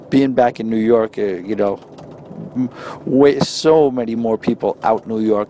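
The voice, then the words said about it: New York accent. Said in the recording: “your New York accent ... I guess it is a little bit of a New York style dialect”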